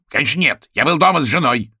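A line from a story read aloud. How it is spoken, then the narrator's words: Blurted, then faltering. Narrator (Russian): выдал он и резко запнулся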